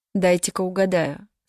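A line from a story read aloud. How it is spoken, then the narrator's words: Plain. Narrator (Russian): сказал Джеймс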